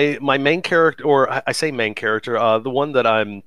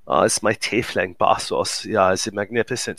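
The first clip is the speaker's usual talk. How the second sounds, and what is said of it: Good put-on German accent. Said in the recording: “all of my tieflings find up having German accents. ... That's a really good German accent.”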